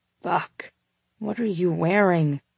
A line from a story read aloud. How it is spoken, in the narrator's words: He groaned into my neck